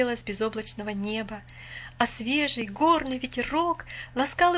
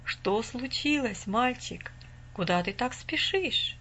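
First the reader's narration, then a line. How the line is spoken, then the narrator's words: Calm old man's question. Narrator (Russian): спокойно спросил дедушка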